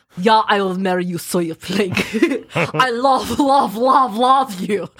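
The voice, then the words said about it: Put-on Russian accent. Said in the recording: “can you give her a Russian accent? ... Why'd you make me do a Russian?”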